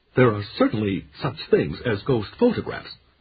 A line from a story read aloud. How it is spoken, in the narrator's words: Chafee said in a rich, pedantic voice